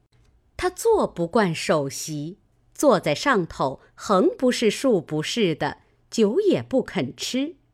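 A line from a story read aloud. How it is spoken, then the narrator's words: Laughing reply. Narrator (Chinese): 尤氏又笑回说道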